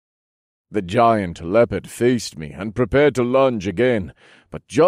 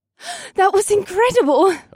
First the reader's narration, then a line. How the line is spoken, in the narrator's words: Asta breathed